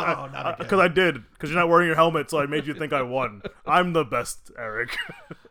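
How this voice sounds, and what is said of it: Imitates a character's voice. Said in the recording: “my Charles Xavier impersonation”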